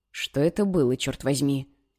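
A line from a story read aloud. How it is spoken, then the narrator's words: Quiet question. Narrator (Russian): тихо спросил Лукас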